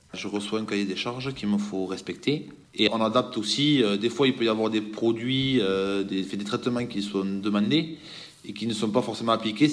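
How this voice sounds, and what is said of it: Slight regional French accent. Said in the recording (French): “ils ont un petit accent”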